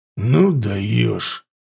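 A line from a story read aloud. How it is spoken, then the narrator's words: Irritated curt remark. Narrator (Russian): раздраженно бросил ворк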